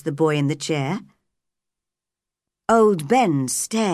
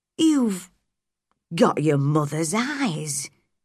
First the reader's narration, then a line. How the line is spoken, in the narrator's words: he said in a shaking voice